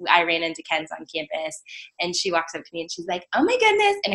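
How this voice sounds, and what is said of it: Usual voice. Nothing is said of it.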